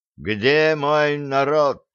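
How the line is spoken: Menacing shout. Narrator (Russian): грозно крикнул царь

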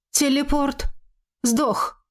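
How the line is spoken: Dry flat masked voice. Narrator (Russian): Выдохнула я в панике, но измененный маской голос прозвучал сухо и бесстрастно

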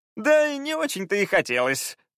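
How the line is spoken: Laughing. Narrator (Russian): рассмеялся Фаул

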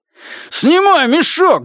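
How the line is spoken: Shout. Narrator (Russian): закричал я

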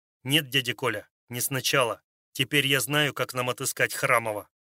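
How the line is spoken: Sharp objection. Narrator (Russian): резко возразил Андрей

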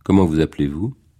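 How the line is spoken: Cold question. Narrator (French): demanda froidement Margot

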